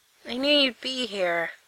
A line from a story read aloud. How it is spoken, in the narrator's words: he says in a raspy voice